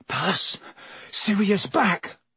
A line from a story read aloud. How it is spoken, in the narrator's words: said Ron faintly